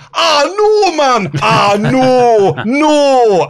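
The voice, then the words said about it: Put-on Geordie accent. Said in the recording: “I enjoy the Geordie accent. In small doses.”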